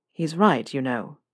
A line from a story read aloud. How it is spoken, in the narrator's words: Draco said softly